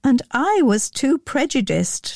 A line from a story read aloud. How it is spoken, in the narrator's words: laughed Elizabeth